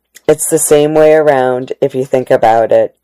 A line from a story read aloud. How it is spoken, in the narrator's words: Eleanor said